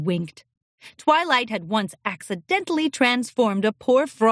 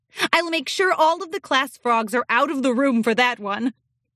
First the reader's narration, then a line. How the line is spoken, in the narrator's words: laughed and added